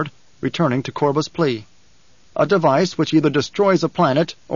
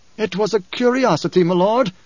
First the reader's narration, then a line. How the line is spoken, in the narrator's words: Korba pleaded